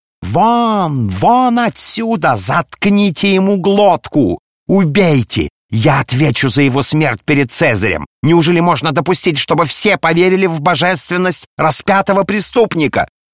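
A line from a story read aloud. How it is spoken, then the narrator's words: Furious yell. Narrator (Russian): Каиафа в бешенстве завопил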